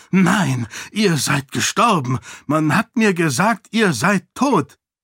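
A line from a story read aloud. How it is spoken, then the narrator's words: Gasping. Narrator (German): brachte er keuchend hervor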